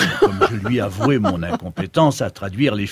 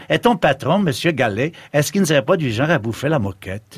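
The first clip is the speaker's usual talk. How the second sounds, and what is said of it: Strong put-on Québécois French accent. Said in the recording (French): “me dit-elle avec un fort accent ... les finesses du parler québécois”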